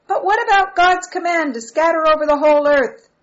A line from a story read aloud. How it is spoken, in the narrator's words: shouted a voice from the back